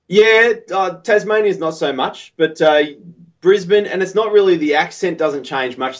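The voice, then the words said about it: Australian accent. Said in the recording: “with the Australian accent, which I'm absolutely loving your accent because it's just classic Australian ... you've got it down very well”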